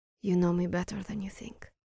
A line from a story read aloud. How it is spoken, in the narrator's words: she said softly